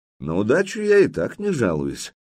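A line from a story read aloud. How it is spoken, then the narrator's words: Calm. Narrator (Russian): спокойно произнес Владимир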